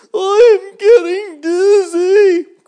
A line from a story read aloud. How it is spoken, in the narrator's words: cried the worm